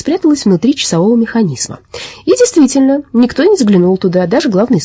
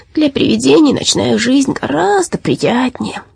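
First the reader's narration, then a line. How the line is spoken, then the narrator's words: Mumbled. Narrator (Russian): пробормотало оно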